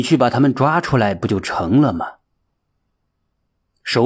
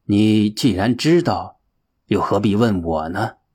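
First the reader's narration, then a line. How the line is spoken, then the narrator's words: Calm smiling monk. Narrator (Chinese): 云清和尚淡淡一笑的问道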